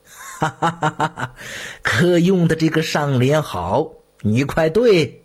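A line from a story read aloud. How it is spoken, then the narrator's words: Laughing, gleefully urging. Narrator (Chinese): 朱翊钧 乐不可支地大笑起来 催道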